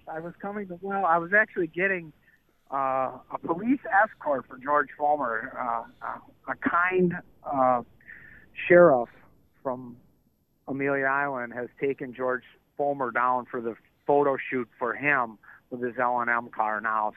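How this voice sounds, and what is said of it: Out of breath. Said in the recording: “out of breath.”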